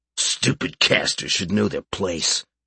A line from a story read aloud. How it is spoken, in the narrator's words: the large man growled in reply